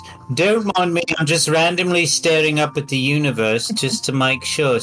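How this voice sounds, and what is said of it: Usual voice. Nothing is said of it.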